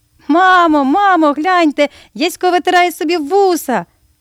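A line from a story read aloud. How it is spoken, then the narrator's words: Laughing cry. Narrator (Ukrainian): сміхом скрикнула Марійка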